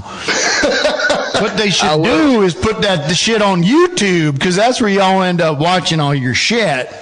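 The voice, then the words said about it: Put-on Southern accent. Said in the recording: “making fun of my southern accent ... I just like talking in different accents when I'm with the person from there”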